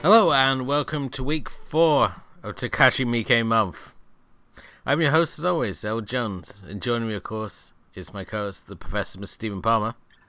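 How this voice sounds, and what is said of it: Weary, tired-sounding voice. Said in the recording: “hear the weariness in your voice”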